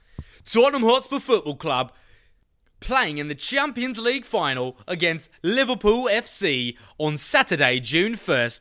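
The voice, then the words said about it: Put-on British accent. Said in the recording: “I'm going to do this whole segment in a British accent.”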